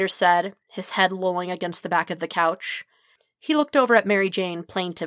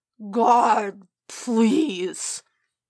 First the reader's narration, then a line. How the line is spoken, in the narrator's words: Peter groaned, hands over his face